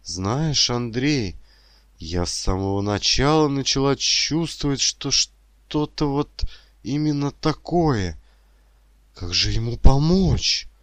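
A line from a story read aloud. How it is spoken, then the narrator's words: Relieved exhale. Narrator (Russian): Санди выдохнул облегченно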